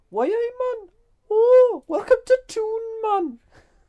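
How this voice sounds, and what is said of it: Put-on Geordie accent. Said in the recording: “a little Geordie twang”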